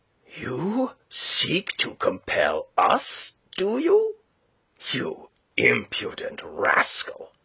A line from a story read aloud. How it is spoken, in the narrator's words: growled